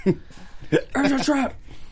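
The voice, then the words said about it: Sheldon Cooper character voice. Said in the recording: “doing an impersonation of Sheldon Cooper doing it”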